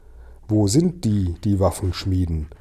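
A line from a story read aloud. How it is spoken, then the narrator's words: Plain question. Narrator (German): fragte ich ihn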